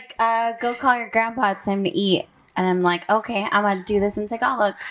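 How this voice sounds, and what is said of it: Usual voice. Nothing is said of it.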